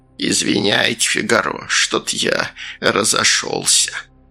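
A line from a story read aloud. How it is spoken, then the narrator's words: Creaky voice. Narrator (Russian): Сальдо проскрипел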